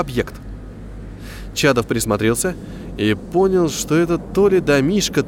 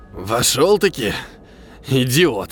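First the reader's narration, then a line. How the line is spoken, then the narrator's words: Wheezing, hoarse speech. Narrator (Russian): сказал незнакомец, хрипя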